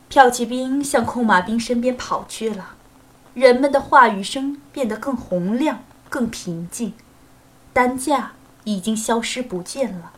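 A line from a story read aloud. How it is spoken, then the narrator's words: Murmuring. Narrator (Chinese): 罗斯托夫喃喃地说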